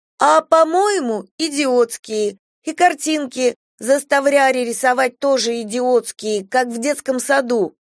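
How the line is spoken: Insolent loud repetition after pause. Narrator (Russian): делает паузу и нахально громко повторяет

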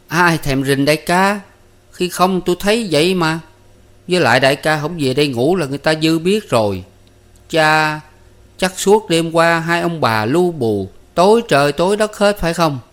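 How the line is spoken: Smiling. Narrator (Vietnamese): Sơn Nhỏ mỉm cười

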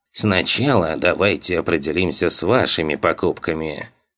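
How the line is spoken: Sly old man's creak. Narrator (Russian): проскрипел хитрый старик

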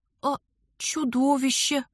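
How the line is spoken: Timid stammer. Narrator (Russian): робко заикнулась я

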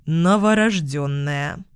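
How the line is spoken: Cold conclusion. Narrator (Russian): Холодно заключил Михаил Захарович

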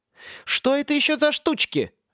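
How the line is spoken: Cheerful exclamation. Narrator (Russian): весело воскликнула

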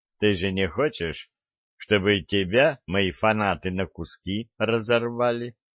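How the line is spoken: Calm question. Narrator (Russian): спокойно спросил Виталик

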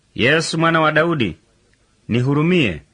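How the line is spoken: Shouting. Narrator (Swahili): akapaza sauti akisema

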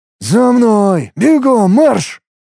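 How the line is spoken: Angry hiss. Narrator (Russian): моего злого шипения

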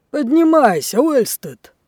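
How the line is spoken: Impatient shout, old sailor. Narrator (Russian): нетерпеливо крикнул старый матрос

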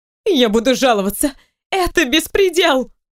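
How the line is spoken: Shrieking. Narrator (Russian): Начинает снова вопить женщина

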